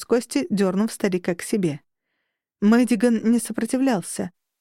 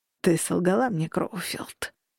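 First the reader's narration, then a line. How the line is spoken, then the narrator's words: Hissed. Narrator (Russian): прошипел Мэддиган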